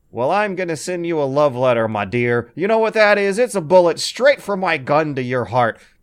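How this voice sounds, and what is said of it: Imitates a video game character's voice. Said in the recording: “my impersonation is immaculate”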